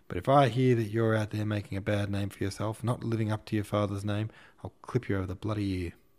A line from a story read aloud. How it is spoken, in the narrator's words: He paused unexpectedly, and then, as if already pissed off, shrieked